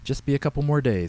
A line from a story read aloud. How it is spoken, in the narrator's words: Stan said